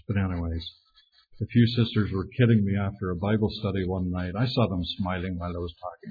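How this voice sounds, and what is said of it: Strong Irish accent. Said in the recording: “You really have a strong accent ... We didn't care about vowels in Ireland.”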